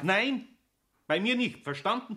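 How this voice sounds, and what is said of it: Shouting angrily. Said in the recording (German): “Schrei doch nicht so”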